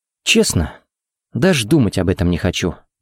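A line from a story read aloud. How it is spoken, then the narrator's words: Sad wry laugh. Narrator (Russian): грустно усмехнулся Харри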